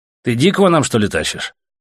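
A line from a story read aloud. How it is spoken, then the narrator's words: Irritated question. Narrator (Russian): раздраженно спросил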